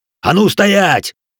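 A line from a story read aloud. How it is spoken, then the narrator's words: Barked command. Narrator (Russian): рявкнул Риоза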